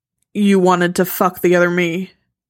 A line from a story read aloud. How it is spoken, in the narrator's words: he says, trying to keep his voice flat